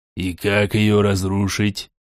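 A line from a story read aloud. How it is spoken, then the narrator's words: Irritated question. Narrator (Russian): раздраженно спросил Борей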